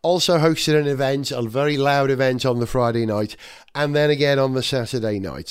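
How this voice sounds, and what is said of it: Slightly husky, hoarse voice. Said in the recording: “I've got a slightly husky voice ... my voice is a little uh, bruised”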